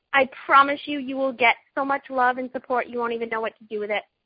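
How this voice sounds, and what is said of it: Boston accent. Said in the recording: “I'm a mom from Boston, Massachusetts, in case you haven't heard my accent come out a few times in this call.”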